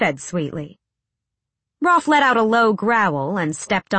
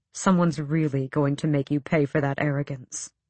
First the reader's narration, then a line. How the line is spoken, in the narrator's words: Rolf said, too quietly